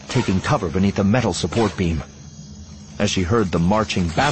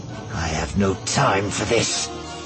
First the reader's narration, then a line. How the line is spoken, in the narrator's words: Ventress muttered